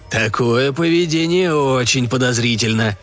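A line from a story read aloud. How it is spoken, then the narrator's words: Hopeful growl. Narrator (Russian): с надеждой прорычал Еваран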